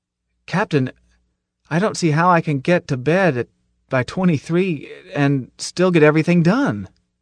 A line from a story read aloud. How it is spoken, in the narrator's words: I felt the bulkheads closing in on me, and added desperately